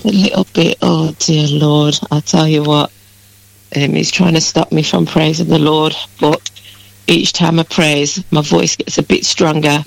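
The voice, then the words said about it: Slightly croaky voice. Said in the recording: “a little bit croaky, you sound”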